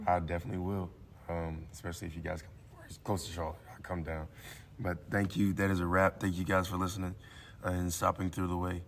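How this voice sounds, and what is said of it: Hoarse, strained voice. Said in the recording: “I apologize for my voice... I wasn't planning on losing it. You know, yelling at third graders”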